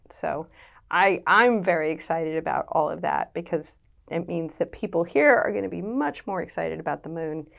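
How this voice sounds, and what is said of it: American accent. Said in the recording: “You can tell from my accent, I grew up in the US”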